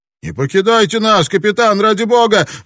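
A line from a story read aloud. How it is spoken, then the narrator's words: Cried out. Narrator (Russian): выкрикнул Крок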